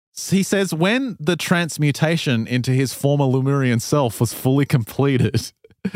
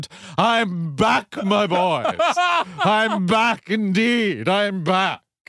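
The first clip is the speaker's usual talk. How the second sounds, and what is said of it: Put-on English accent. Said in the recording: “proclaiming in my new English accent”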